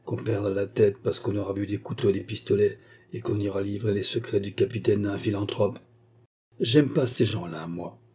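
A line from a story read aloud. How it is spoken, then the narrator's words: Scoundrel murmuring. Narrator (French): avait murmuré le vaurien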